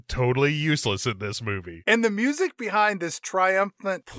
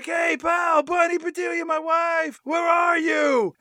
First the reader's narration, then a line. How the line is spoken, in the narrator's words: him screaming her name